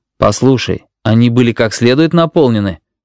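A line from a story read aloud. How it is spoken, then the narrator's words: Mocking question. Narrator (Russian): насмешливо спросил Пентон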